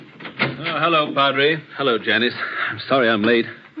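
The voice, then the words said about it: Out of breath, panting speech. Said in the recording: “You seem a good deal out of breath... I am out of breath”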